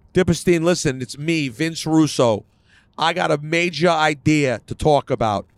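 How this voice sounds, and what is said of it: Over-the-top New York accent, Vince Russo impression. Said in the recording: “I can't even do his New York accent. His New York accent is so over the top.”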